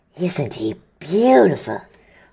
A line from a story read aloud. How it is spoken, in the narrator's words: Hagrid muttered